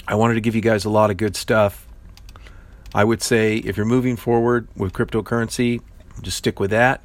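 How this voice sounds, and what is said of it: Strained, fading voice. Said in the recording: “I'm starting to lose my voice.”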